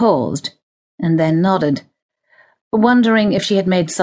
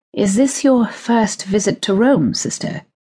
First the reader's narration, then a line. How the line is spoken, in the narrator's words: he asked softly